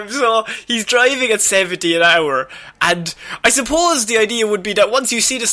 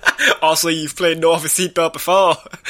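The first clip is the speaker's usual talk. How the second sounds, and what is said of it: French person doing Australian accent. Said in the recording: “what accent was that? ... Was a French. That's a French man doing Australian. ... French-Irish”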